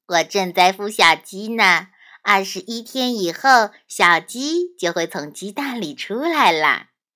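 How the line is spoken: Cheerful, smiling. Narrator (Chinese): 鸡妈妈笑着说

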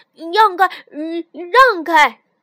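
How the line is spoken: Deliberately loud shouting. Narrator (Chinese): 尤里故意大声嚷道

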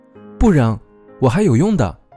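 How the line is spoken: Called out. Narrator (Chinese): 默默叫

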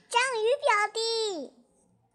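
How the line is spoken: Hurried greeting. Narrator (Chinese): 张教授连忙问候道

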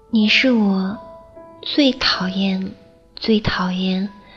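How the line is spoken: Slow. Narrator (Chinese): 大鱼慢慢的说

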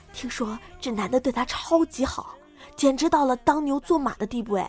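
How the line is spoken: Whispered. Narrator (Chinese): 悄声 对我说

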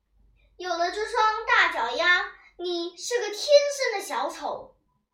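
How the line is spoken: Roaring. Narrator (Chinese): 牛老师大吼

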